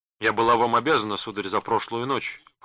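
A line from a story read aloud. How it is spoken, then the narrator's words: Cold. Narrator (Russian): холодно сказала она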